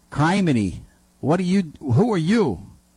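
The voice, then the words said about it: Attempted imitation of another's accent. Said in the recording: “in that accent ... Basically, I don't do accents.”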